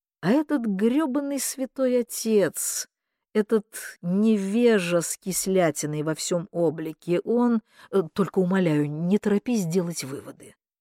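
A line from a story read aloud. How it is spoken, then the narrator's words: Thoughtful speech. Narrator (Russian): задумчиво проговорил Кордовин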